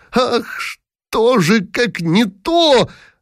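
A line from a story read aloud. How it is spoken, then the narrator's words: Loud exclaiming reply. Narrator (Russian): отвечал Дибич, сильно вскрикнув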